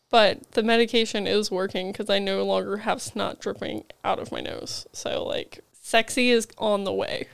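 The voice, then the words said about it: Raspy, sick-sounding voice. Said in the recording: “I can't decide if I have, like, a sexy, raspy voice or if I sound like a whiny child ... You're kind of, like, in that weird I'm sick sound ... raspy voice from being sick”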